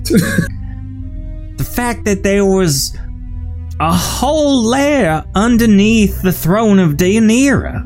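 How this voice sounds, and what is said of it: Wavering Southern belle accent. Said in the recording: “My accent's going all over the place ... That sounds very Gone with the Wind of you.”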